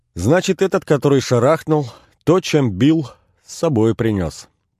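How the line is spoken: Cheerful. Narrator (Russian): продолжал Костя весело

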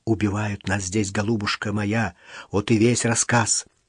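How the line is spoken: Heavy woman whispering. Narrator (Russian): неопрятная, тяжеловесная женщина шептала

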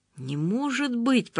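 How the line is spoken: Whisper. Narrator (Russian): прошептал он

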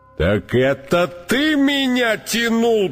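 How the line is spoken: Elephant's roar. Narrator (Russian): проревел слон

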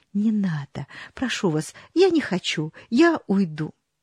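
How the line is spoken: Woman whispering. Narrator (Russian): дама шептала

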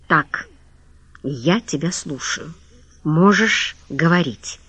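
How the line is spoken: Through clenched teeth. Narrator (Russian): сказал сквозь зубы

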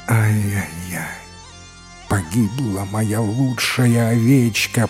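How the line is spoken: Groaning lament. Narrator (Russian): простонал осо

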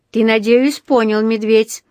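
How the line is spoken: Loud, for all to hear. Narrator (Russian): проговорил он громким голосом, чтобы слышали все вокруг

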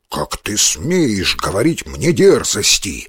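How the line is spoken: Growl. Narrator (Russian): зарычал тигр

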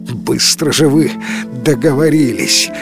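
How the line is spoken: Said after laughing. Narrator (Russian): отсмеявшись, сообщил он

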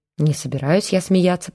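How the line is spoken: Mutter. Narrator (Russian): пробормотал Олейников

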